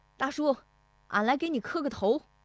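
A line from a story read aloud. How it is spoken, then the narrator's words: Shouting. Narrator (Chinese): 石德义进门就喊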